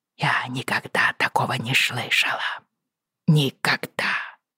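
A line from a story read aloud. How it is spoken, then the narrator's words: Quiet confession. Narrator (Russian): тихо призналась она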